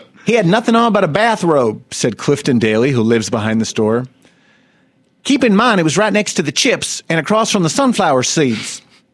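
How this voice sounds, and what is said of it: Put-on Southern US accent. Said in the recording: “I'm going to do a southern accent”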